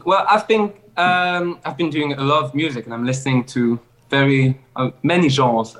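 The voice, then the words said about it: Speaks with a foreign accent. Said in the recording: “love your accent”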